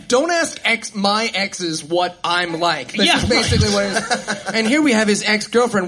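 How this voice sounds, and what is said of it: British accent. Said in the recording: “your British accent is killing it in this crowd”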